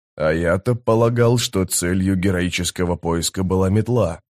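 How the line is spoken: Muttered. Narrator (Russian): пробормотал Трель

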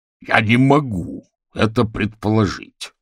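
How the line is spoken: Growled. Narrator (Russian): прорычал Орвил

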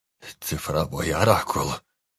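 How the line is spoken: Hoarse, trembling. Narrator (Russian): хрипло произнес Анджей, которого била мелкая дрожь

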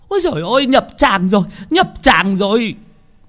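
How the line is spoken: Women shrieking. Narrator (Vietnamese): mấy bà đàn bà con gái thì rú lên

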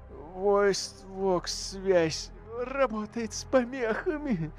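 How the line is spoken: Whimpered. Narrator (Russian): проскулил Церт

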